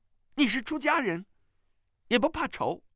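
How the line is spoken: Anxious, angry scolding. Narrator (Chinese): 他又急又怒地骂道

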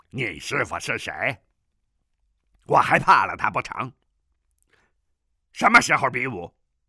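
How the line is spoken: Angry. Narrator (Chinese): 南海恶神怒道

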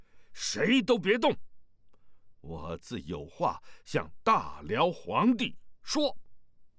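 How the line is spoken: Loud shout. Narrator (Chinese): 萧峰大声喊道

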